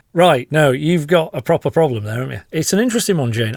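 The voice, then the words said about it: Slightly posh Yorkshire accent. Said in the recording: “my slightly posh version of a Yorkshire accent.”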